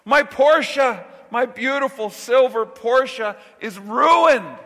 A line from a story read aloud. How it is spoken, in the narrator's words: he screams